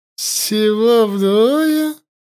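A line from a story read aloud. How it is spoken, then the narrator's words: Priestess bursting into laughter. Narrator (Russian): расхохоталась жрица Наи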